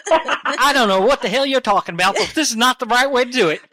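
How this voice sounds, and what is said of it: Fake Southern accent. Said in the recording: “my southern accent's real. is fake.”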